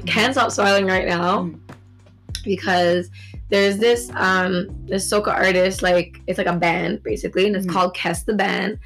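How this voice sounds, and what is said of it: Raspy, hoarse voice. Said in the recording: “don't mind my raspy voice. I think I'm coming down with something”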